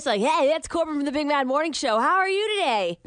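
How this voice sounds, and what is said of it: Exaggerated radio announcer voice. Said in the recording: “super radio voice”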